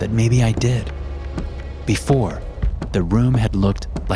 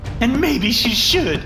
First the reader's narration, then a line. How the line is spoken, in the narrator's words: Rachel yells